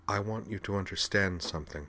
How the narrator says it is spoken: Liza said softly

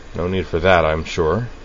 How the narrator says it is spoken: Sayonji observed dryly

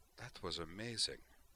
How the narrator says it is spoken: she said softly

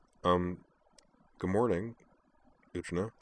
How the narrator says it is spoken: he added in kind of a strained mumble, his face reddening

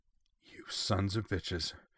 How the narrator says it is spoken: Corwin breathed

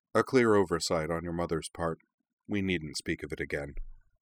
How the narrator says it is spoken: The Headmaster smiled a little sadly and said only

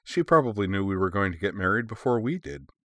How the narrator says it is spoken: Chuckling, she added

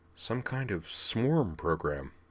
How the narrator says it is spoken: Sylvie muttered

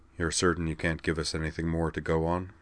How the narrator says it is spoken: he said, in a calm, smooth voice that was as dead inside as his eyes

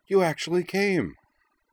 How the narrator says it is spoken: she cried

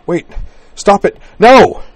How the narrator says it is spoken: gasping away from his, and cried

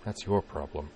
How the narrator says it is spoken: Nanami muttered

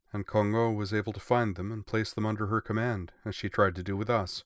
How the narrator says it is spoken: Yamato said sadly

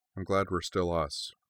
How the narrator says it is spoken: she said quietly

